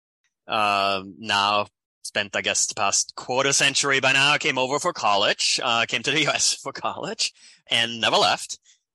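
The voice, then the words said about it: Austrian-accented English. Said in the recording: “I mentioned European before, right? So that's where my accent is from. Born in Austria.”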